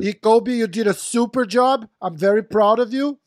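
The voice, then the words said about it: Donald Trump impression. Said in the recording (Portuguese): “Essa foi minha imitação de Donald Trump. Horrível.”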